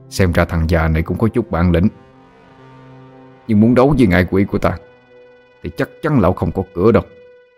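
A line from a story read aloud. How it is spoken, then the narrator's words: Soft contemptuous snort. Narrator (Vietnamese): Hắn khẽ hừ lên một tiếng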